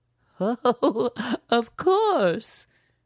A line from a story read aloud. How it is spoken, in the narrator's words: she giggled